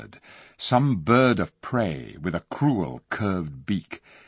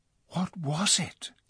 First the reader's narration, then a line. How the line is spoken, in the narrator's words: said Eustace in a whisper